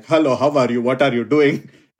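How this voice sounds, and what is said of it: Put-on stereotyped Indian accent. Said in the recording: “If you are an Indian, you got to do this accent”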